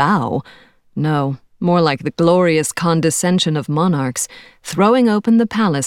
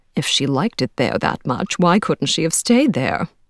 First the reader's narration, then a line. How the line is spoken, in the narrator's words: muttered the matchmaking mamas, thwarted in their ambitions for their daughters